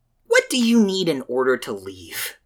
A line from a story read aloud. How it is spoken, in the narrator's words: Adam asked, his voice quieter